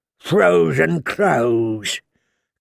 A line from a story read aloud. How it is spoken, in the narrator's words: Craster sneered